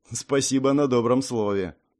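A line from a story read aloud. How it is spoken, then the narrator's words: Snorting. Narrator (Russian): хмыкнул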